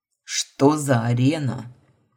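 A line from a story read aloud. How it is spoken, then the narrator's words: Growled. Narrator (Russian): Рыкнул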